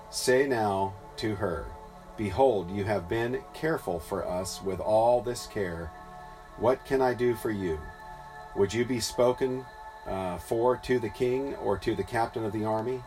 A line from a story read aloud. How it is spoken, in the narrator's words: she answered